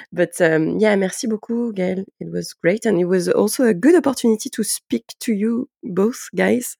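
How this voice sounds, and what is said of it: French-accented English. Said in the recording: “I'm going to stick to French ... It was a bit hard for me, for my sleepy head, to speak English this morning. So sorry for this very bad accent.”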